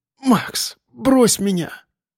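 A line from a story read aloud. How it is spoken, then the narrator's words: Faint hoarse rasp. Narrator (Russian): Прохрипела, едва шевеля губами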